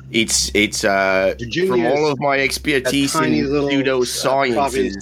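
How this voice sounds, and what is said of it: Put-on fake Australian accent. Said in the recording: “where is this accent coming from? ... In Australia, right? ... it's a pseudo accent.”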